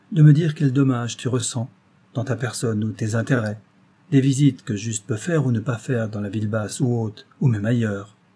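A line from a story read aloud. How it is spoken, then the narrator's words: Calm, measured tone. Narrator (French): dit-il d'un ton posé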